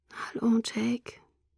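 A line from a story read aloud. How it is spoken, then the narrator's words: Quiet. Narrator (German): sagte leise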